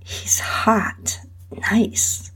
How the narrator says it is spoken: she whispered

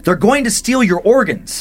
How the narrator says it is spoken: Sabina wakes up out of nowhere and shouts

